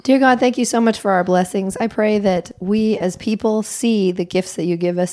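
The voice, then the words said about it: Voice rough from illness. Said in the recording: “Forgive my voice. ... I have been sick.”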